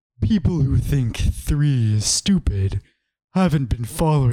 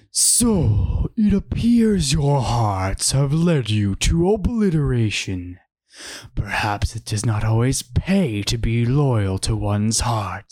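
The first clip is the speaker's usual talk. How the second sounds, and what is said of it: Video game character voice, strong P's. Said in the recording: “do a Zen this voice ... Your P's are super strong there”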